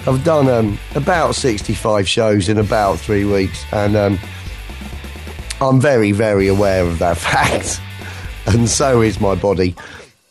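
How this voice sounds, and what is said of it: Strained voice, not fully recovered. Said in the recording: “My voice is still not back right”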